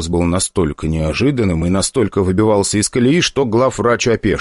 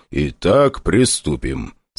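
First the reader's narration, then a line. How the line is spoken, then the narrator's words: Calm amid screaming. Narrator (Russian): спокойно, не обращая внимания на вопли главврача, проговорил главный среди вояк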